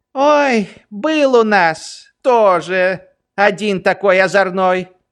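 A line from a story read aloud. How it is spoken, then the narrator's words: Old woman sighing. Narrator (Russian): вздохнула бабушка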